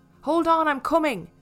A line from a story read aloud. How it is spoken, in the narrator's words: he shouted to her, trying to make his voice sound reassuring